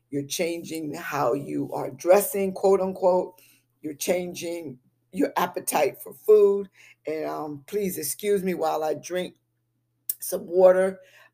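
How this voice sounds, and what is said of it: Harsh, strained voice. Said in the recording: “my voice is getting pretty harsh.”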